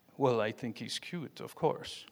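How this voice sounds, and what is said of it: Bad put-on French accent. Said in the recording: “that's the worst French accent you'll ever hear”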